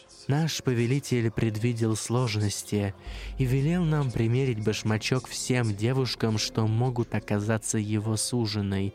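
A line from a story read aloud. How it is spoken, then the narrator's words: Plain. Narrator (Russian): сказал он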